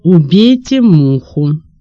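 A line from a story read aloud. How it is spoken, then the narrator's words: Commanding trained voice. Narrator (Russian): опять не требовала поставленным голосом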